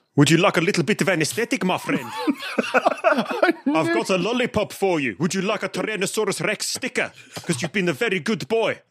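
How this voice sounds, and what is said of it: Chirpy, menacing put-on South African accent. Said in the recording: “a very chirpy but slightly frightening South African dentist ... the South African accent. It's like happy but also full of threat.”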